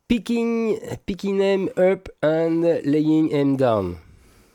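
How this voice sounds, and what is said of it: English spoken with a French accent. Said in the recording (French): “Avec toujours le même accent.”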